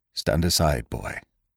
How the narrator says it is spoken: said the doctor, and for once his voice shook slightly

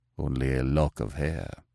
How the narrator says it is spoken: murmured the nobleman

